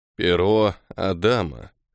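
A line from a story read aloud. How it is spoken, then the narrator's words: Grim surprised old man. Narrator (Russian): мрачно констатировал старик из Федерации Пиона, от неожиданности позабыв про свой фирменный смех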